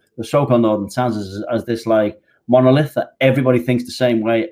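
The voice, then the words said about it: Regional British, non-London accent. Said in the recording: “you can tell by my accent, I'm not from London.”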